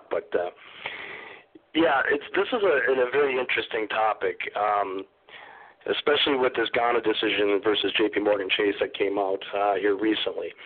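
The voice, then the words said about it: Hoarse throat. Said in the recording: “even with these allergies that are persisting ... hoarse throat or coughing”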